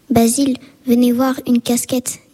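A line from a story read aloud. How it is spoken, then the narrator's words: Plain. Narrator (French): dit Dawson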